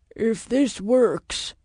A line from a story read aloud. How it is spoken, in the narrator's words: Walker grumbled